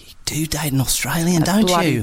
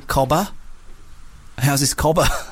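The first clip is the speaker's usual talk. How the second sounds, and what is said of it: Poor put-on Australian accent. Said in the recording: “my Australian accent because I think it is a dog shit... I was doing it there, but I don't think it was great... It's a bit more South African, maybe, your one.”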